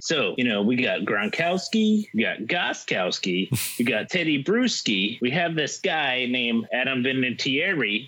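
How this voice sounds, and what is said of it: Boston-area Patriots fan voice. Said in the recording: “impersonating Scott, impersonating a Patriots fan ... I'm trying to get up to the Boston area and talking like Scott would impersonate someone”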